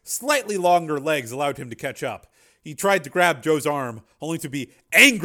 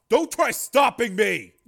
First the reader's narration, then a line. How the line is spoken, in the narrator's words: Joe yelled